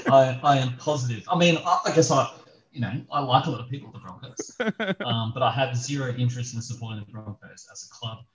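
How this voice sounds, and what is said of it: New Zealand accent. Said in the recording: “my accent obviously is in New Zealand”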